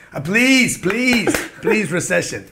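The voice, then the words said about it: Put-on prayer accent. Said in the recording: “What's the accent? ... when I pray, I go into an accent.”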